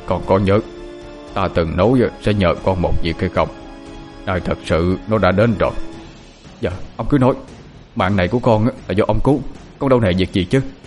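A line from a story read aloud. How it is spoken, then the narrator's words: Very grave voice. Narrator (Vietnamese): nói với giọng rất nghiêm trọng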